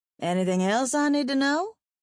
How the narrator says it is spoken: I asked dryly

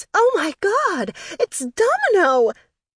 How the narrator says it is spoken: Croissant squealed in my ear

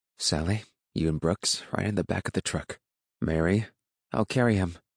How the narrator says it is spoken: she said

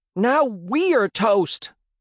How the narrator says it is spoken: yell

